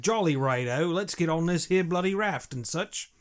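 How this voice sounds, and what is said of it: Put-on British accent. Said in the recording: “If you're British, I want to hear like ... if you have a British accent”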